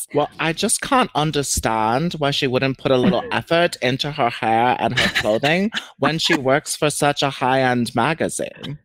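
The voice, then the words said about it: Well-done imitation of a character's accent. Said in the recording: “That's ... so good. How do you have that accent down?... added a little inflection... Julia Garner killed it with that accent”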